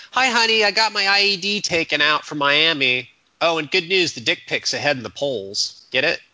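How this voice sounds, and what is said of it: Impression of Paul W. Downs. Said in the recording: “I predict this will be remembered forever as your Paul W. Downs impression. ... I'm trying to impersonate his writing, too.”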